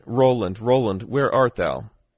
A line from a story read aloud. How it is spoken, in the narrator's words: his wife cried